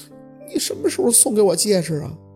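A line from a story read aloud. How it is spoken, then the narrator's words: Tearful, childlike. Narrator (Chinese): 宝四 带着哭腔的声音从嘴里孩子气的吐出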